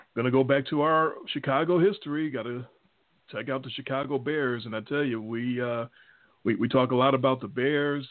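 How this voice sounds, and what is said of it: Chicago accent. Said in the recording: “You can tell by our accents, our Chicago accents.”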